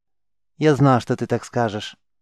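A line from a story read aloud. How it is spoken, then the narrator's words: Completely calm. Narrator (Russian): совершенно спокойно произнес шаман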